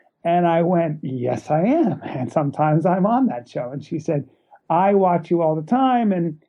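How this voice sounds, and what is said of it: Usual voice. Nothing is said of it.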